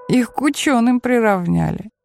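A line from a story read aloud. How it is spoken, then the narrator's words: Chuckling. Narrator (Russian): хохотнул Ариэль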